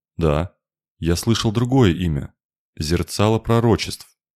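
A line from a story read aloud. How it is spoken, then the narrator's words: Uncertain. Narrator (Russian): неуверенно сказал северянин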